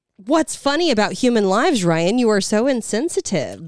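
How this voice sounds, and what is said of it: Sarcastic mock-indignant tone. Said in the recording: “I'm being sarcastic”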